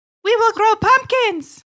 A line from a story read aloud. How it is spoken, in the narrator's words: squeaked the mice excitedly